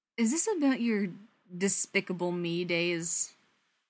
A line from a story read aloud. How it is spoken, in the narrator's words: She laughs half-heartedly